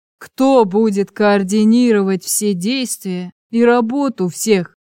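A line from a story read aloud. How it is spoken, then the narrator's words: Menacing shout. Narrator (Russian): грозно вскричал Углеб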